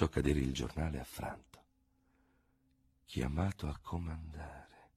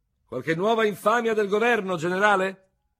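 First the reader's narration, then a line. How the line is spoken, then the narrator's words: Burly veteran shouting from afar. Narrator (Italian): Un veterano dall'ampio torace gridò dall'altra estremità del caffè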